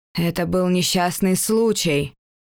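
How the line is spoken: Hollow, grief-stricken voice. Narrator (Russian): глухо произнес Валентин, и горе, смявшее его лицо, было глубоким и неутолимым

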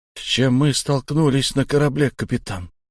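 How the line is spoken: Quiet question. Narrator (Russian): тихо поинтересовался Шон

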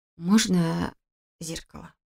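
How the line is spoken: Hoarse mutter. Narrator (Russian): хрипло пробормотала я

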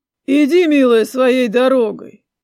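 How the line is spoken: Flat, colorless command. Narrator (Russian): отпустил приказ его светлость бесцветным голосом

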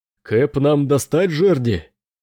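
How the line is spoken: Pirate shouting amid cacophony. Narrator (Russian): крикнул один из пиратов в какофонии ответов других членов команды

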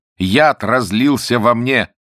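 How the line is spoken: Trembling shout. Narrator (Russian): царь затрясся и крикнул

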